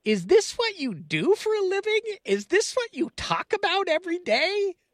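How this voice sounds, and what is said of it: Impression of his mother. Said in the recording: “my best mom impersonation”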